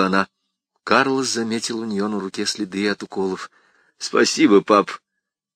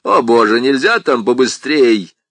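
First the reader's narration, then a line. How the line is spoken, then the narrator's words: Man yelling from another room. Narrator (Russian): заорал мужчина из комнаты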